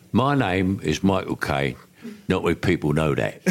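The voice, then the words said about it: Michael Caine impression of himself. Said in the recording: “You are probably the most impersonated person in the world. ... I am, but I can do it as well. ... That's the second best one. ... That was pretty good.”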